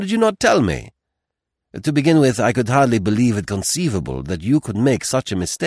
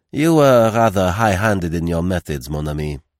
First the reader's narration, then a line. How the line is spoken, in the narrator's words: said Poirot dryly